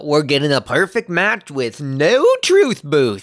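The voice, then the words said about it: Put-on accent. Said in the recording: “I don't know where that accent came from.”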